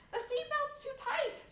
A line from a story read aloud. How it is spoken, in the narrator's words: she screamed